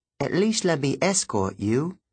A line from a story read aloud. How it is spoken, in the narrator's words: she said